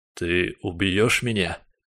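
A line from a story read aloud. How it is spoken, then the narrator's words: Hoarse, breathy question. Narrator (Russian): Сиплый вопрос вырвался вместе с выдохом сам собой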